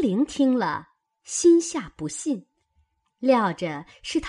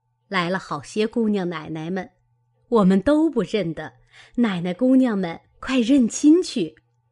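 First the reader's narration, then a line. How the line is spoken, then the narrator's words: Girls and old women laughing. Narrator (Chinese): 几个小丫头并老婆子都笑道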